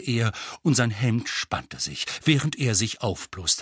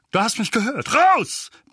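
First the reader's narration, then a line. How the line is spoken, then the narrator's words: Barked. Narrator (German): bellte Onkel Vernon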